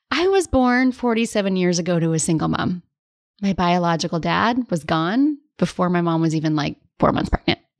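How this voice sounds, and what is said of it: Choked-up, tearful voice. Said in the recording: “I'm getting choked up. ... all of a sudden the tears want to come.”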